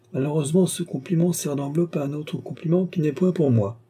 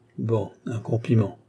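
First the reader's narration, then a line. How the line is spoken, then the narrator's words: Whispered. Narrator (French): dit tout bas la comtesse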